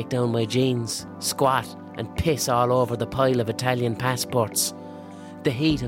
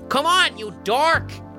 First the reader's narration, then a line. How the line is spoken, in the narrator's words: shouts Sam